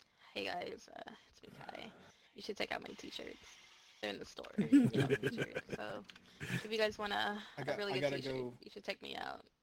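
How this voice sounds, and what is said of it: Imitates another person's voice. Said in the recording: “do my best Kai impression.”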